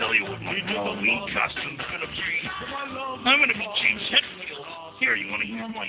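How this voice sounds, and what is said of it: Usual voice. Nothing is said of it.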